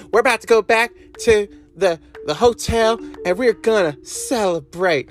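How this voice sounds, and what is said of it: Imitates another person's voice. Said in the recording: “I'm going to do the best Lacey Evans impression I can.”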